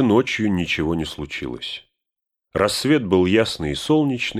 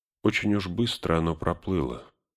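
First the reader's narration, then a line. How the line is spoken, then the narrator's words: Muttering to himself. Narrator (Russian): никому не обращаясь, пробормотал Арагорн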